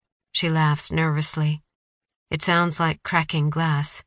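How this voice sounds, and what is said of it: Usual voice. Nothing is said of it.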